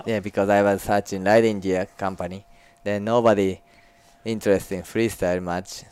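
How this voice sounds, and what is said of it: Japanese-Australian accent. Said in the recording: “A Japanese-Australian, ... accent.”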